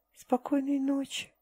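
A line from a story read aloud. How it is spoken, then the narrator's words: Whisper into darkness. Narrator (Russian): прошептала Тайра в темноту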